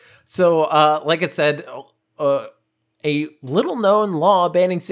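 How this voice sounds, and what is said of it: Usual voice. Nothing is said of it.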